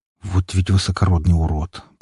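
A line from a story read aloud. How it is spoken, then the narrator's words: Grumbled. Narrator (Russian): проворчал друг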